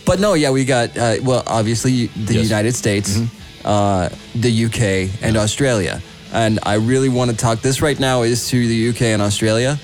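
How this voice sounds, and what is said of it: Put-on Australian accent. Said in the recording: “Am I fucking up the accents? ... Oh, you sound Australian right there. ... that was the Australian one”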